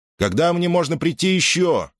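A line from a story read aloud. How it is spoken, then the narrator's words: Shouted through door. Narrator (Russian): крикнул Перикл в закрытую дверь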